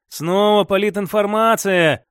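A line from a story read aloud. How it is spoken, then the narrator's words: Sigh. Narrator (Russian): вздохнул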